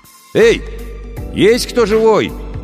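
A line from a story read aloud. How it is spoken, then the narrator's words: Shout. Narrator (Russian): крикнул Сашка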